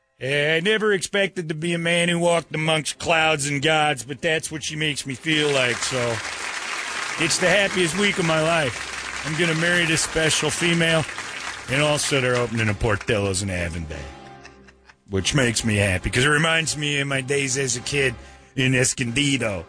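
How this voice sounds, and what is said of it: Put-on regional accent. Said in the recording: “Why do you have an accent? ... Picked up the accent somewhere around Coronado.”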